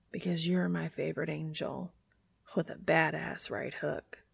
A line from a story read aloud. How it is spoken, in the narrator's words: whisper against Castiel's lips